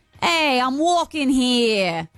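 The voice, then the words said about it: Put-on New York accent. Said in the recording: “I'm saying that in a New York accent”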